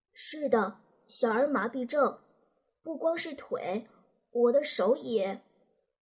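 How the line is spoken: Boy, slightly lowered voice. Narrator (Chinese): 男孩稍微压低了一点声音说

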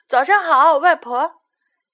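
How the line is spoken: Shouting in unison. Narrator (Chinese): 七个小矮人齐声喊了一句

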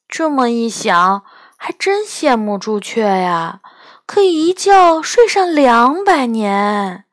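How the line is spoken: Sighing. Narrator (Chinese): 我叹了一口气说

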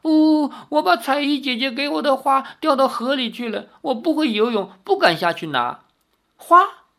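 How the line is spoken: Child crying while speaking. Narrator (Chinese): 那孩童一面哭一面说

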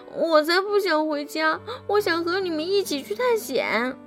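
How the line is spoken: Sad, crying. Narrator (Chinese): 尼尔斯听完后，竟然伤心的哭起来，边哭边说

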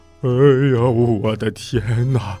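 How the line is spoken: Exclaiming. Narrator (Chinese): 他感叹着说

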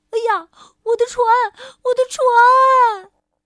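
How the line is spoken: Child shouting. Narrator (Chinese): 小男孩大叫

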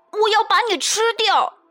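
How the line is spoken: Roaring. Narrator (Chinese): Max 也吼着

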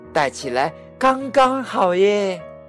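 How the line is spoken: Loud cheering. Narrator (Chinese): 小熊高声欢呼着

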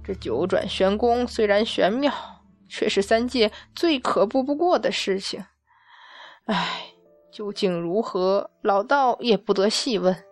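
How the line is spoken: Sighing repeatedly. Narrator (Chinese): 太白金星摇头连叹

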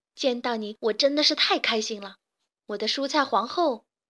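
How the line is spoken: Delighted shout. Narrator (Chinese): 卡梅利多惊喜地大叫

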